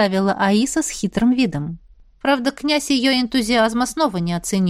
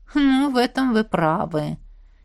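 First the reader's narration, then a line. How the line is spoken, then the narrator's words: Philosophical, heavy sigh. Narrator (Russian): Философски заметил Риан и тяжело вздохнул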